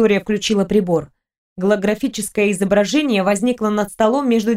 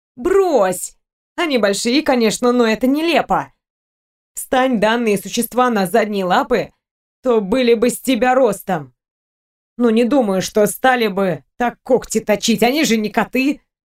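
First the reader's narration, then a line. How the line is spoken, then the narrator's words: Snorting. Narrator (Russian): хмыкнула Зои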